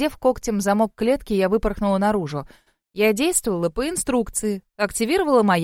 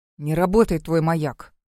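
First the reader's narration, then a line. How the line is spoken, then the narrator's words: Grumbled. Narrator (Russian): проворчал он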